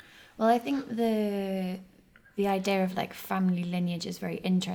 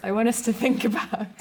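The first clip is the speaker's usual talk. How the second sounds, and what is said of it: Instructive teacher voice. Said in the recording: “that's what I say in my teacher voice.”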